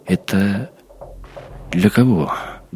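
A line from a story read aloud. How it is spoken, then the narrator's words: Shaky voice, questioning. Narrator (Russian): дрогнувшим голосом спросил Максим Приходько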